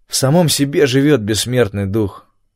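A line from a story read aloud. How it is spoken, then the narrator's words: Gloomy remark. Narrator (Russian): мрачно заметил я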